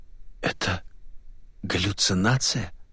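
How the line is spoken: Hoarse mutter. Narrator (Russian): хрипло пробормотала девушка

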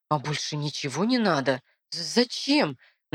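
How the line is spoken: Stuttering. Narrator (Russian): Начинаю заикаться я

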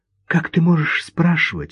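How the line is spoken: Frightened whisper. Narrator (Russian): раздался ее испуганный шепот

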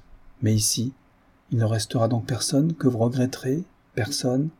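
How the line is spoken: Timid, very low voice. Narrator (French): Elle avait dit cela timidement, la voix très basse, dans ce bruit de rire, mais elle lui parlait plus bas encore

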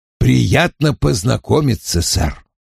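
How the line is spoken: Grumbling. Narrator (Russian): проворчал Вульф

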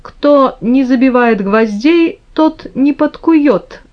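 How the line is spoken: Laughing father's reply. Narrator (Russian): ответил, смеясь, папа

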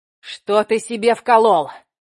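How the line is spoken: Yelled. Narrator (Russian): заорал

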